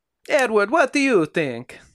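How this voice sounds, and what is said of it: Imitated Italian accent, Enrico Fermi. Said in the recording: “He probably had an Italian accent.”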